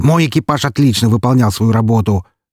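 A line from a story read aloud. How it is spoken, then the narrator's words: Sharp interruption. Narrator (Russian): резко перебил он меня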